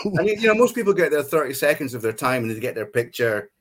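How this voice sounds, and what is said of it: Scottish accent. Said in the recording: “are you Scottish? And I went, yeah. ... my accent.”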